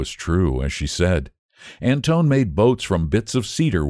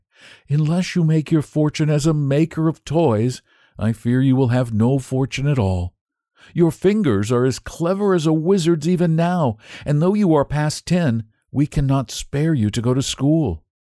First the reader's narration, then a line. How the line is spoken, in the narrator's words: his mother would answer with a sigh